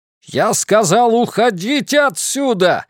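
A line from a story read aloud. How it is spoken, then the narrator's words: Shout. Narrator (Russian): закричал Лазарус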